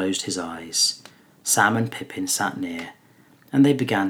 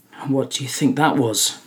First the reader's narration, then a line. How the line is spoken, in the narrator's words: Pippin asked at last, trying to speak lightly but quavering a little